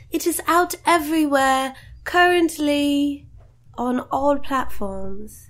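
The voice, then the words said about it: Put-on British accent, mediocre. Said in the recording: “Is that good British accent? ... No. ... 4 out of 10. ... my British accent”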